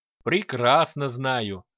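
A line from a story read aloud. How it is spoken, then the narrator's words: Chuckling. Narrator (Russian): хохотнул Киран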